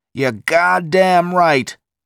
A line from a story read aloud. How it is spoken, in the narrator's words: Pete shouted into the microphone